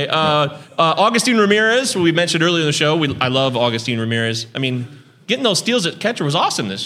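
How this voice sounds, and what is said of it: Usual voice. Nothing is said of it.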